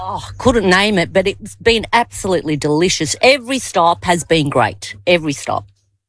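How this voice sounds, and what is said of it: Australian accent. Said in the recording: “accent that's a bit weird and funny ... a Turkish person with an Australian accent”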